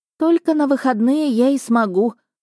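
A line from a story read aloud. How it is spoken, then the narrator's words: Sorrowful sigh. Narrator (Russian): горестно вздохнула Эвелотта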